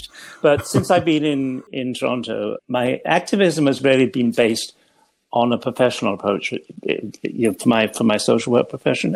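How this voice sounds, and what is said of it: English accent. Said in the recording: “I trained in England, where I grew up ... you may gather all that from my accent, which hasn't changed”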